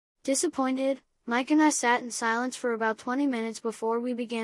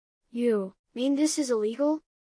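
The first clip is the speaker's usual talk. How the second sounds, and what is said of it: Quivering, shaky voice. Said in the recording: “in a quivering voice.”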